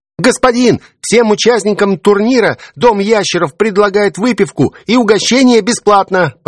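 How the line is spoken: Boy shouting up close. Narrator (Russian): Почти в лицо выкрикнул мне худощавый мальчишка

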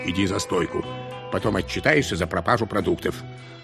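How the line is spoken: Gruff mutter. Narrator (Russian): соавтор буркнул

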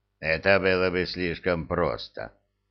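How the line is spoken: Grumble. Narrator (Russian): проворчал Храт

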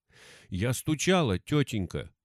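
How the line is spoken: Frightened child's mumble. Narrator (Russian): Испуганно пробормотала девочка

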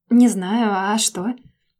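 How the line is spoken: Unsuspecting girl's drawl. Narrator (Russian): протянула ничего не подозревающая девушка

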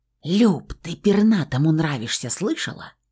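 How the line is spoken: Little girl whispering. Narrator (Russian): прошептала мелкая

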